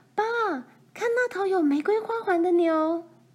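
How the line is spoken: Calling out. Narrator (Chinese): 罗兰叫着

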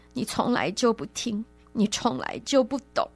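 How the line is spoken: Crying. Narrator (Chinese): 他哭了出来，说

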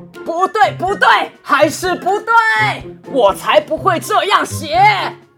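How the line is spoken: Desperate roaring shout. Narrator (Chinese): 狮子绝望的大吼大叫，把所有他想写给母狮子的话全部大声喊出来

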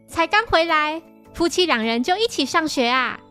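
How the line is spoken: Embarrassed protest. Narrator (Chinese): 新一红着脸要他们别胡说

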